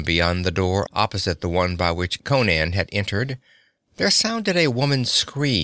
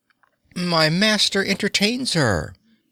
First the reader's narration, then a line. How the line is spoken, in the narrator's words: laughed Baal Pitor